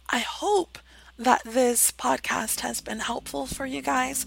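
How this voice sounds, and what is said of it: Strained, fading voice. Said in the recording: “You can hear that I'm losing my voice. I've been talking so much lately”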